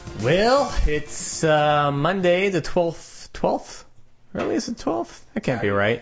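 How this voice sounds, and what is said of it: Exaggerated put-on accent. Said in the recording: “saying well in that horrible accent”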